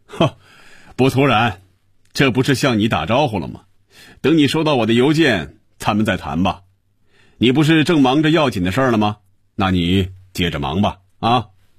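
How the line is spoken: Satisfied, laughing. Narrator (Chinese): 感觉舒服、满足、痛快，他笑着说

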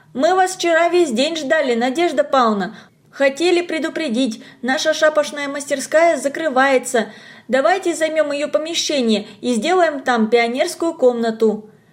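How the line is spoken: Hurried shout while walking. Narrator (Russian): Та торопилась в школу и на ходу крикнула

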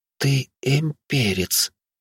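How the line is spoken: Barely audible whisper. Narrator (Russian): Фатия едва слышно прошептала

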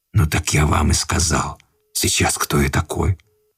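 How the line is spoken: Stranger's whisper. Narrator (Russian): прошептал странный незнакомец

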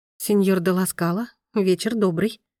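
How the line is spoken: Trembling voice. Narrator (Russian): ответила она дрогнувшим голосом

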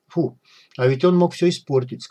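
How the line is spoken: Plain. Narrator (Russian): сказал Рик

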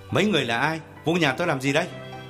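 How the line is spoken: Loud demanding question. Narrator (Vietnamese): Gã lớn tiếng hỏi

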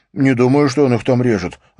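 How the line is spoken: Snapping. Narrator (Russian): огрызнулся

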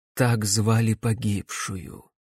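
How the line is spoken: Quiet. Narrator (Russian): тихо произнесла сиделка

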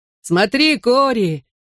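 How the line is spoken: Shouted. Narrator (Russian): крикнул мне Бен

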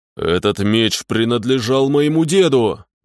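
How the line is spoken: Growling warrior. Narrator (Russian): зарычал богатырь

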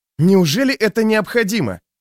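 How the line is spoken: Disgusted bark. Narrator (Russian): рявкнул Лео, кривя губы от отвращения

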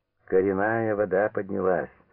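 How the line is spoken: Grumbling. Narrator (Russian): ворчал Бурмакин

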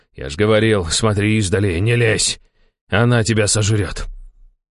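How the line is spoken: Quiet growl. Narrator (Russian): Я тихо зарычал

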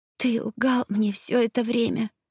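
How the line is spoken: Whispering through sobs. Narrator (Russian): сквозь всхлипы прошептала я

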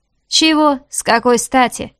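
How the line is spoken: Scoffing snort. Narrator (Russian): фыркнул он

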